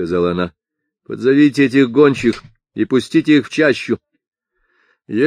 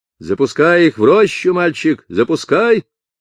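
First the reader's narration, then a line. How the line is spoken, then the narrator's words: Mother shouting. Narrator (Russian): кричала мать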